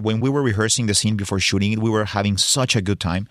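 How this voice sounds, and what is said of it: Thick foreign accent. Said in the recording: “We both have very thick accents”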